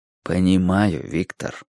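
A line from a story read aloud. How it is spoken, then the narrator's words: Soft. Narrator (Russian): мягко сказал Риццоли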